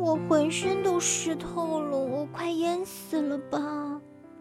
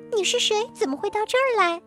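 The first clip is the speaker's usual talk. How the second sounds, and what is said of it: Small, tiny voice. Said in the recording (Chinese): “一个小小的声音说”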